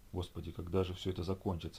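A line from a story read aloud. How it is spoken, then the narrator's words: Whispered. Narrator (Russian): шептала она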